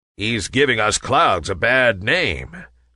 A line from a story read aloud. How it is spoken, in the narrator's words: growled a big, burly cloud